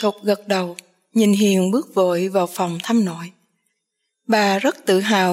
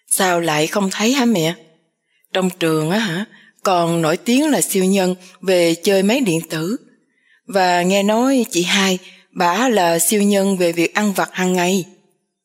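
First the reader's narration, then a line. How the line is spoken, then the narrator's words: Laughing loudly. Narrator (Vietnamese): Vũ cười to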